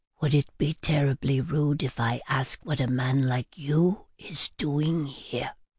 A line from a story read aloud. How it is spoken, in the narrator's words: dropping my voice to a whisper, said